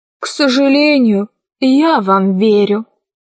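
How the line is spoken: Sighing. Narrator (Russian): вздохнул Гим

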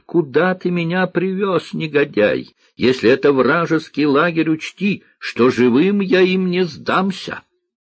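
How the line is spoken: Angry shouting after someone. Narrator (Russian): вице-маршал кричал ему вслед

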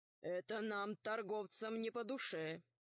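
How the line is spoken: Gloomy. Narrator (Russian): мрачно сказал купец

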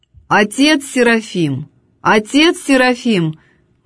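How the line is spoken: Loud calling. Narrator (Russian): громко позвала она отшельника

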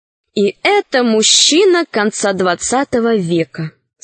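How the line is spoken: Plain. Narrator (Russian): сказала Юлька

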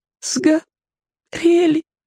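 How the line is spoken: Sobbing. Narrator (Russian): всхлипнул Васька

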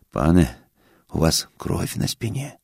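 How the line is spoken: Quiet. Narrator (Russian): тихо сказал мне корчмарь

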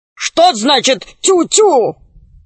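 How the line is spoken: Barking snap. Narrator (Russian): рявкнул Громозека

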